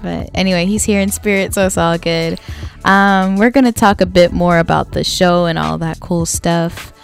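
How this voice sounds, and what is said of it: Raspy voice. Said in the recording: “My voice is so raspy. ... It's actually because I went to bed at like 5:30 in the morning.”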